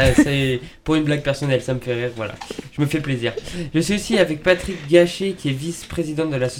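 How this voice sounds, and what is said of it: Usual voice. Nothing is said of it.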